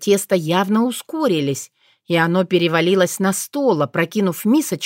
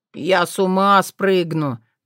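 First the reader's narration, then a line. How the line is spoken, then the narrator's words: Moaning. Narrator (Russian): простонал Тишинор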